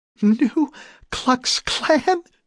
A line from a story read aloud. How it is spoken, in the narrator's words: asked Rachel, laughing despite the tension